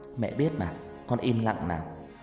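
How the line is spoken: Soft, smiling. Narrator (Vietnamese): Hằng chỉ mỉm cười khẽ nói

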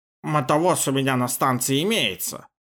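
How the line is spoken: Grumbling mutter. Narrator (Russian): пробурчал

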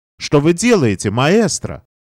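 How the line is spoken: Guest exclaiming. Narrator (Russian): гость воскликнул

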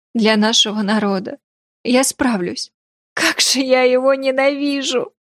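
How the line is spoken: Sobbing, in tears. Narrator (Russian): Она окончательно разрыдалась

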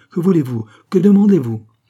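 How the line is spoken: Exclaiming. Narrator (French): s'écrie-t-il

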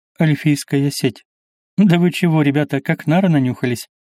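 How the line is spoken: Casual scoff. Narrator (Russian): Небрежно хмыкнул Альгали

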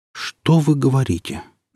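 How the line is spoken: Surprised, trembling voice. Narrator (Russian): дрогнувшим голосом удивился барабанщик

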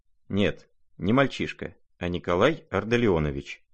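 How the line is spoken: Firm, quiet answer. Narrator (Russian): твердо, хотя и довольно тихо, ответил наконец князь

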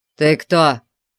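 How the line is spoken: Barked. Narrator (Russian): рявкнул на нее Конан

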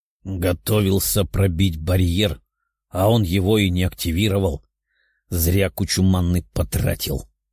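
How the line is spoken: Grumbling. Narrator (Russian): проворчал Тео

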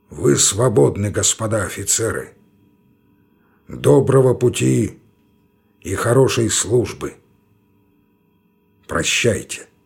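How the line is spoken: Hoarse, heavy iron voice. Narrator (Russian): Анчутин сказал сиплым, но тяжелым, как железо, голосом

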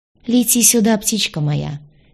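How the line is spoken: Soft laugh, husband. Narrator (Russian): тихонько засмеялся муж

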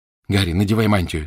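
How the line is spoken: Plain. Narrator (Russian): сказала Гермиона

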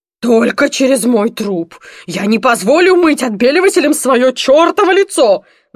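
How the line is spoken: Father roaring. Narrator (Russian): взревел папа

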